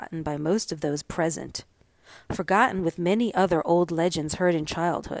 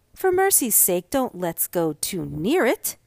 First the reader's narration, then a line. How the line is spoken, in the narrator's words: exclaimed some of the young ladies